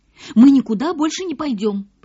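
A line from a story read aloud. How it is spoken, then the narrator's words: Girls exclaiming together. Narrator (Russian): почти вместе воскликнули девочки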